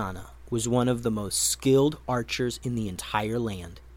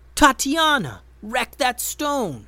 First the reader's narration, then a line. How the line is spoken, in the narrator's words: Benben yelled